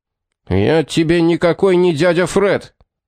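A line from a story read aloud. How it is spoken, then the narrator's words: Furious yell. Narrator (Russian): яростно заорал Баффери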